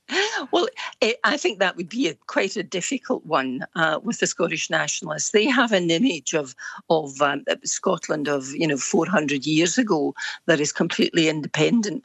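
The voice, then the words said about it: Scottish accent. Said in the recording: “speaking as you are with your lovely accent”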